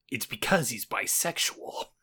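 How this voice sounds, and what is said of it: Impression of Solid Snake's voice. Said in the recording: “you need to do it in a Solid Snake voice ... That's pretty good.”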